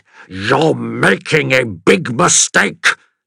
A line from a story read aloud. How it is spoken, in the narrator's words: the cartographer snarled